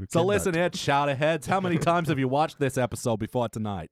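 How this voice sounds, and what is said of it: Deliberately bad Boston accent. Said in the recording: “we all adopt horrible Boston accents”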